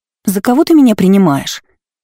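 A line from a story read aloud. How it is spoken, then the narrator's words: Indignant. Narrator (Russian): возмущённо проговорила Лола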